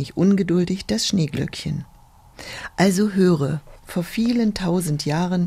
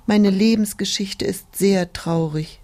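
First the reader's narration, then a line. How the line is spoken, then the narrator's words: Sigh. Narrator (German): die Tulpe seufzte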